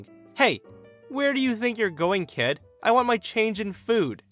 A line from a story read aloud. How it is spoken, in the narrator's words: she yells at me saying